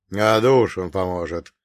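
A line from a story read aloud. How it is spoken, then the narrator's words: Plain. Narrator (Russian): ответил Грейс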